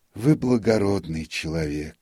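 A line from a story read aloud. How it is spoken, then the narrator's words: Sigh. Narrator (Russian): вздохнул нотариус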